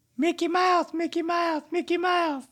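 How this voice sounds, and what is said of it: Mickey Mouse impression. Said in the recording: “let me hear your Mickey impression ... He laughs like that.”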